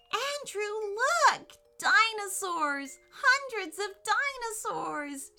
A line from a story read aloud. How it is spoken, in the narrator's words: she squealed with delight